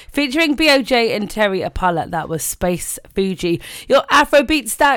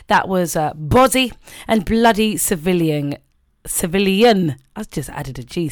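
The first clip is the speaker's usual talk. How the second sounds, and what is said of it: Put-on Indian accent. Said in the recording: “I went into an Indian accent again, didn't I?”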